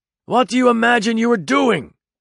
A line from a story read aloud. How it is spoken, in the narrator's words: shouted the older man at his contrary offspring